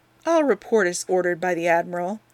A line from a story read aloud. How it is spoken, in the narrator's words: he said with a yawn